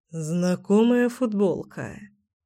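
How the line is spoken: Muttering. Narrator (Russian): пробормотал Кирилл

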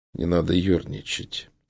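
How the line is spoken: Calm reply. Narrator (Russian): спокойно ответил

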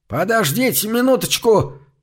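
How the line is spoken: Shouted after them. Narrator (Russian): крикнул им вслед Доус

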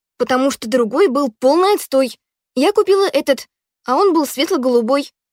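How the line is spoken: Snapped. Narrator (Russian): огрызнулась Ханна

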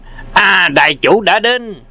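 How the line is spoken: Crowd cheering. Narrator (Vietnamese): chúng nhân reo lên

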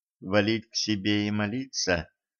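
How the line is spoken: Barely audible. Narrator (Russian): едва слышно уточнила она

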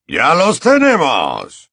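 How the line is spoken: Shouting. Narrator (Spanish): gritó el mortífago, que estaba más cerca de él

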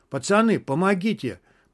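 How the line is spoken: Hoarse wheeze. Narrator (Russian): просипел Толик

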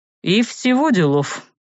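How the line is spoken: Snort. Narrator (Russian): хмыкнул Арт

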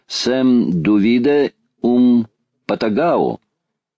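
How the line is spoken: Slow teacherly question. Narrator (Russian): сказал географ, и, произнося медленно, как учитель в классе, спросил

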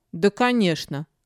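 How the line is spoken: Snorting. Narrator (Russian): фыркнула Лисия

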